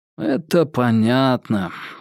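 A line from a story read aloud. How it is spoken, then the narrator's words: Sigh. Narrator (Russian): вздохнул Анзоров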